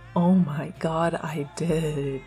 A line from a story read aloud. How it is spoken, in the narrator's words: Remus groaned